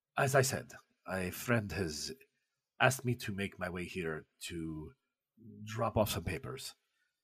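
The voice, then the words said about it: Foreign, non-Russian accent. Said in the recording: “another accent that isn't Russian”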